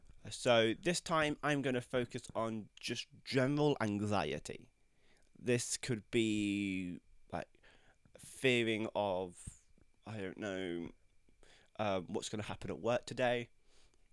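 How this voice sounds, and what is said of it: Croaky voice. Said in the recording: “if my voice sounds a little croaky, I'm still getting over my cold”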